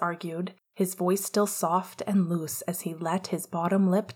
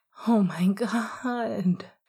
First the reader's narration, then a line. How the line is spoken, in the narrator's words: Sirius moaned